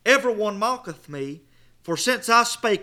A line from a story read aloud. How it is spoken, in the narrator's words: I cried out